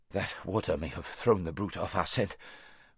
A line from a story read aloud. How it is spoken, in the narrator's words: panted Bree when he had partly got his breath again